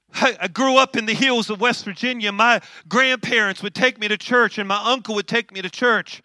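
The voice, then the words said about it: West Virginia accent. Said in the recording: “I was saved in an old country church in the hills of West Virginia. That's why you hear an accent.”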